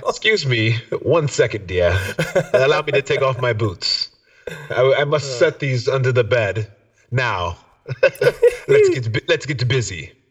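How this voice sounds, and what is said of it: Put-on accent, badly done. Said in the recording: “That was a horrible accent for the occasion.”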